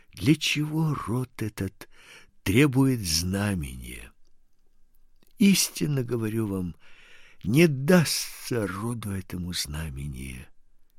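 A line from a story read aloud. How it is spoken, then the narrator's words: Deep sigh, then speaking. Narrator (Russian): глубоко вздохнув, сказал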